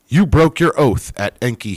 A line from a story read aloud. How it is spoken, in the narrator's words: he shouted